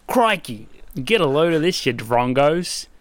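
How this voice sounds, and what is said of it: Put-on Australian accent. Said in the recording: “you can hear my best Australian accent as I read the intro”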